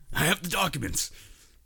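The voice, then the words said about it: Imitates another person's voice. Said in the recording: “your Alex Jones impression?”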